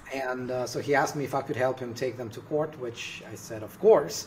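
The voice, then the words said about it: Russian accent. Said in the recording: “probably you can hear it from my name, maybe my accent. I'm originally from Russia.”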